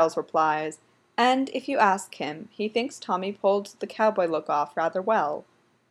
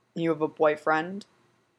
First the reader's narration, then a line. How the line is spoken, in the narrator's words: growls